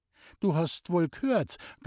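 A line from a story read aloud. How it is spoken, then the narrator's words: Strained, pressed voice. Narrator (German): gab Loni mit gepresster Stimme zur Antwort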